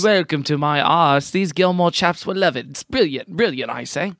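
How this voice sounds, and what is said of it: Put-on British accent. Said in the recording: “a dude with a British accent”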